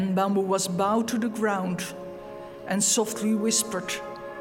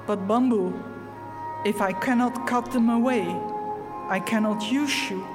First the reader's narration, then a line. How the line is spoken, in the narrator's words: The master whispered